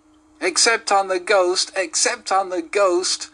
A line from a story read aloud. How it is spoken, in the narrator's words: shrieked the twins as they capered about